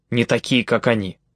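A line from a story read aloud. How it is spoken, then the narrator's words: Indignant male speech. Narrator (Russian): возмущенно проговорил он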